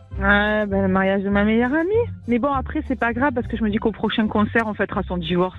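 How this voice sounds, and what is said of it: Sunny southern French accent. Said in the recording (French): “Du côté de Nice, avec un accent soleillé dans la voix.”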